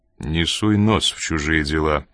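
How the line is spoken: Dry, curt. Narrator (Russian): сухо проговорил Коридон

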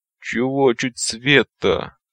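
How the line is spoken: Groaning. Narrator (Russian): простонал он

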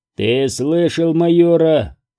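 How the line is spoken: Sergeant growling. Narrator (Russian): прорычал сержант

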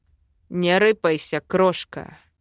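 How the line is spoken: Quiet growl. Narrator (Russian): Тихо зарычал дракон

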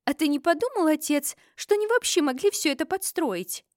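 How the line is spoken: Sudden exclamation. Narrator (Russian): Вдруг воскликнула Сабрина

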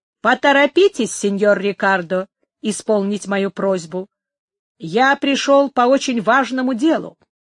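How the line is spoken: Loud, irritated repetition. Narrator (Russian): громко и раздраженным голосом повторил

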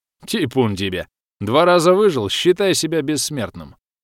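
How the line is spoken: Chuckling. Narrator (Russian): хохотнул Федька

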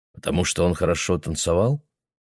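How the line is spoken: Plain. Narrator (Russian): сказала Мэгги

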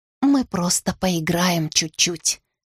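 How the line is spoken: Quiet. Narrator (Russian): тихо сказала я Ласке

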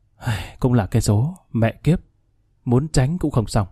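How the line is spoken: Sighing, to himself. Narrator (Vietnamese): Khanh thở dài tự nhủ

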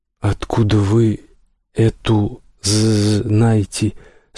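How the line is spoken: Nervous stammering, broken accent. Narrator (Russian): спрашивает толстяк от волнения, вновь коверкая слова, как будто одновременно заикаясь и сражаясь с неродным языком

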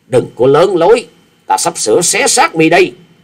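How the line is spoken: Shouted. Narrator (Vietnamese): Kẹp theo tiếng hét

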